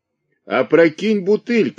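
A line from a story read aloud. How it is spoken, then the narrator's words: Shouted from crowd. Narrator (Russian): крикнули в толпе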